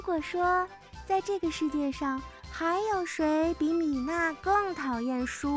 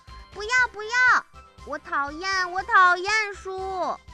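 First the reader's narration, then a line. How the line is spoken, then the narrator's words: Loud refusal. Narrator (Chinese): 米娜 她大声地说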